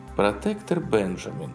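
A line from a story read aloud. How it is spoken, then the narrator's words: Calm reply. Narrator (Russian): спокойно ответила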